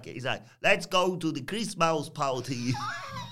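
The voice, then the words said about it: Poor imitation of another person's voice. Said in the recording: “my impression of him. I can't. I'm really bad at my ... You do a terrible stack”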